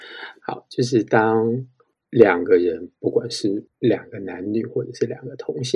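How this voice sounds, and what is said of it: Usual voice. Nothing is said of it.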